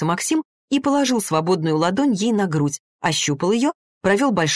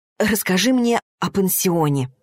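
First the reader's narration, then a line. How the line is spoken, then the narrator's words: Restrained whisper. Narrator (Russian): прошептала Арина, сдерживая себя изо всех сил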